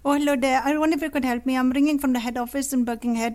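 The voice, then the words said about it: Put-on Indian accent. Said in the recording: “I was going to do it in an Indian accent”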